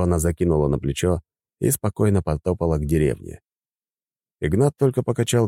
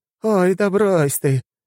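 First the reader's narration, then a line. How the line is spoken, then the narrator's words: Giggle. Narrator (Russian): хихикнула она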